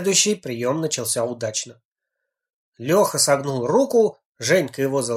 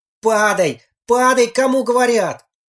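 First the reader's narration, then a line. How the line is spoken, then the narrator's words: Exasperated shout. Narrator (Russian): Наконец он не выдержал и закричал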